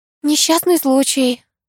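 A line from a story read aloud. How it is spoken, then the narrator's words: Sigh. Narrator (Russian): вздохнула я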